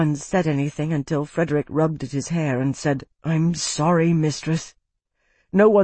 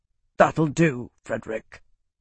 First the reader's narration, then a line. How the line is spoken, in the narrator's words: Roth said sternly